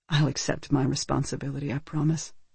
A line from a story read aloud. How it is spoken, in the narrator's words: said Maxine softly